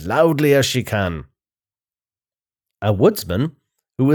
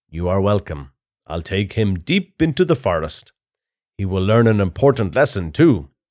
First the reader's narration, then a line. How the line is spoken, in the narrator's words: says the woodsman